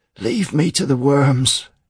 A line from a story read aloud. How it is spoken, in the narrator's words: he wheezed